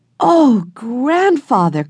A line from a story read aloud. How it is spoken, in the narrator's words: cried Jessie